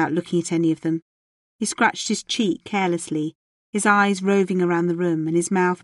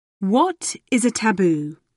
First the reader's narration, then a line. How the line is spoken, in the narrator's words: asked, his voice ringing out in the vast room